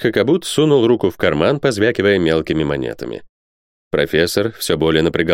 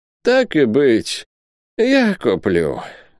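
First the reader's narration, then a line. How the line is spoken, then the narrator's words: Resigned sigh. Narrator (Russian): вздохнул он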